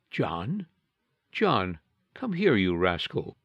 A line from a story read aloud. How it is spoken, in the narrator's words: she softly said